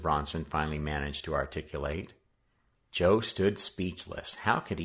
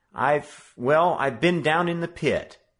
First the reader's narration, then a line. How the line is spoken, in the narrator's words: Joe succeeded in blurting out